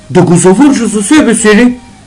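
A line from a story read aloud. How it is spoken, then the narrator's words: Miser's exclamation. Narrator (Bulgarian): възкликнал скъперникът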